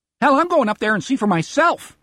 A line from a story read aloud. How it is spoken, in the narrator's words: Teddy Runkleman shouts, almost jubilantly